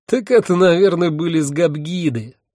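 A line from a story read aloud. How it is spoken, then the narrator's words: Laughing. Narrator (Russian): рассмеялся мой спутник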